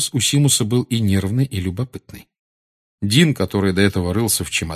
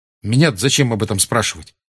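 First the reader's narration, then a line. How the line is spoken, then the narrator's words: Sharp reply. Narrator (Russian): резко ответил Гарри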